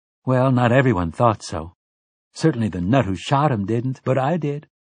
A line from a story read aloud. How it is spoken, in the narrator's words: she said